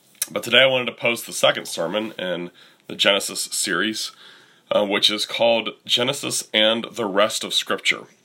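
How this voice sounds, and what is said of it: Worn-out, hoarse voice. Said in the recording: “Still fighting a cold. ... My voice is pretty shot still.”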